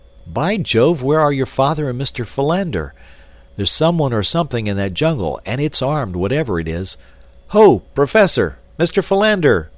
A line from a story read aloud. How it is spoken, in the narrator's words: young Clayton shouted